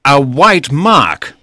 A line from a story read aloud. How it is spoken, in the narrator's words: he cried